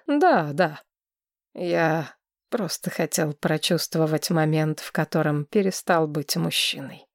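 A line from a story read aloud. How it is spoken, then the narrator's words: Grumbling mutter. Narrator (Russian): буркнул Линнард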